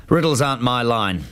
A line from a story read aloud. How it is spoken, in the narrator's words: he said gruffly